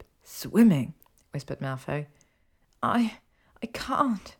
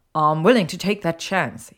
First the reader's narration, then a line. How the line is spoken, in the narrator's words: he snapped